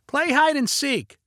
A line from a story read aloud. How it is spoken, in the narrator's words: shouted Leo